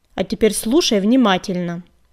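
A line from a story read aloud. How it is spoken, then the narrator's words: Old woman barking. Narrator (Russian): рявкнула старуха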